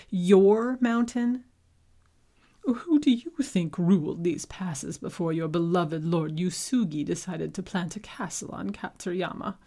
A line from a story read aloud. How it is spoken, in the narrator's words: Yeko sputtered